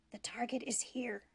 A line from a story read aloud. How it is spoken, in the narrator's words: she whispered